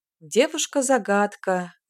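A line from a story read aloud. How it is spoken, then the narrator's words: Sighing. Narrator (Russian): вздохнул Юэлун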